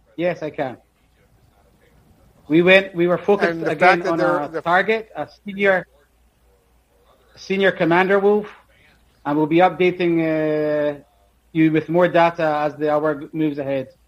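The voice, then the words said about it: Strange accent. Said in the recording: “an Israeli army commander with a strange accent”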